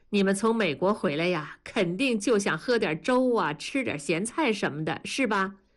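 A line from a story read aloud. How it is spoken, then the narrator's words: Plain. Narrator (Chinese): 文丽说着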